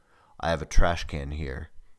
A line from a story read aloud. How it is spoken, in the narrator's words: Eagle said in his deep and throaty voice